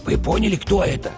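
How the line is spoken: Whispered question. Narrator (Russian): шепотом спросил бык-тупогуб

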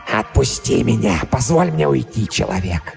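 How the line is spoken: Hoarse, heavily accented, expressive. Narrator (Russian): Хриплый голос и сильный акцент придавали его словам необычайную выразительность

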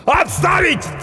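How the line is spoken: Bellowing. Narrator (Russian): орал очнувшийся от ступора доктор

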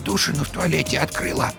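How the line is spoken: Told quietly. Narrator (Russian): тихо сообщила она Вовке

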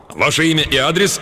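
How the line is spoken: Brisk officer barking. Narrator (Russian): рявкнул деловой энергичный голос дежурного офицера

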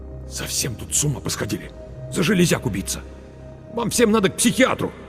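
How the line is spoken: Through gritted teeth. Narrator (Russian): Марк процедил сквозь зубы

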